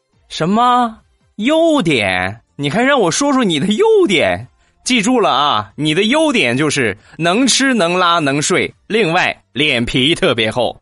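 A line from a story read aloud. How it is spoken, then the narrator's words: Sudden shout. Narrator (Chinese): 突然这姑娘大喊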